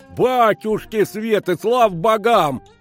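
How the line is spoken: Bellowing senior miner. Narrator (Russian): заорал старший из рудокопов

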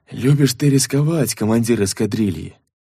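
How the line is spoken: Disapproving sigh. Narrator (Russian): Осуждающе вздохнул бармен

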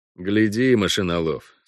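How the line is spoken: Through gritted teeth. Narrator (Russian): сказал Парт сквозь зубы

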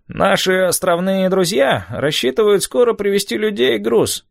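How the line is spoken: Nasal voice. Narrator (Russian): сказал гнусавый

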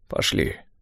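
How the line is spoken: Hoarse. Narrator (Russian): сказал он хрипло

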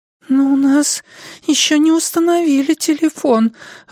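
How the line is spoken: Timid objection. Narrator (Russian): робко возразила Дилли

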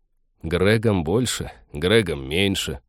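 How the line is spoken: Grumbling. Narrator (Russian): проворчал Тед

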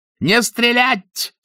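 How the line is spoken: Yell breaking into shriek. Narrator (Russian): срываясь на виск, заорал Мюллер

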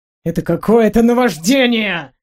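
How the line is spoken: Growled. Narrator (Russian): прорычал Гарольд

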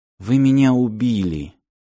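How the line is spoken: Quiet. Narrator (Russian): тихо сказала Ирочка

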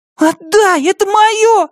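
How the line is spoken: Wailing scream. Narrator (Russian): завопила Марли

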